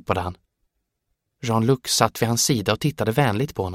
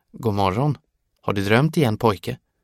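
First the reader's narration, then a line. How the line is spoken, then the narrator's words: Calm. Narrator (Swedish): sa han lugnt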